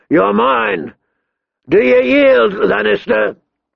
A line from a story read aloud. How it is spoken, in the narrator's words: he boomed down